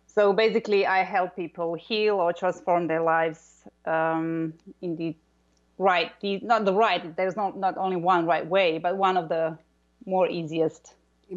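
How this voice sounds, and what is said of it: Strong Croatian accent. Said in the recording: “you have a very strong accent ... I'm from Croatia. ... where we have those R's in our names and surnames.”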